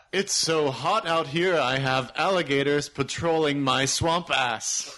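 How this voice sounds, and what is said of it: Theatrical projected thespian voice. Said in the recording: “thespian accent ... project to the back of the back of the theater ... Is that thespian enough?”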